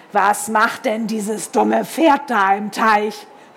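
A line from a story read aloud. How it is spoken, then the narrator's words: Bellowing across water. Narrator (German): Sören über das Wasser brüllen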